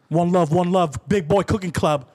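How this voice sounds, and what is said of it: Put-on UK accent, needs work. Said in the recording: “I need to work on that accent a little more. ... Is that a New York or UK? ... That's UK.”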